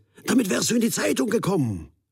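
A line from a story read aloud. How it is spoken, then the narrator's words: Drawn-out call. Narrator (German): rief er gedehnt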